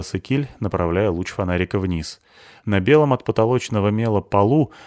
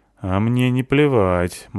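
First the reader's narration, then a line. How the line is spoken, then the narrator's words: Gloomy. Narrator (Russian): мрачно сказала Абута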